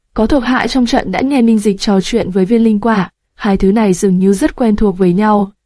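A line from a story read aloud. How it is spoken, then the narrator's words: Hoarse voice. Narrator (Vietnamese): Khổng Tước giọng khàn khàn nói tiếp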